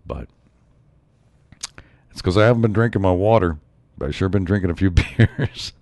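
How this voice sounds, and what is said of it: Raspy voice. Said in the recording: “right now I've got a little bit of cold. Maybe you can tell my voice is kind of raspy.”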